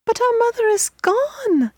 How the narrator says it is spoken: the children cried

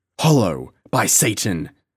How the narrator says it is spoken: shouted John Gower

